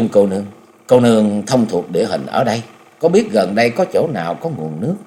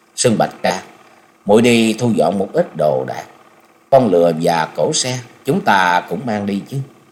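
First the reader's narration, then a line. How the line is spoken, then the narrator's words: Sighing. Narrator (Vietnamese): Đứng lặng một lúc lâu, Chung Nhật Tự mới thở dài nói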